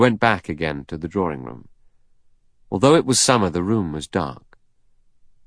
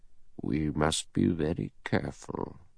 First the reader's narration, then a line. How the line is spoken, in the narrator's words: The judge murmured with a reptilian smile